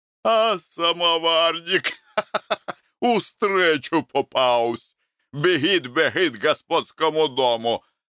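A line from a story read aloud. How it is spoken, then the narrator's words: Laughing. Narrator (Russian): смеялся Челыш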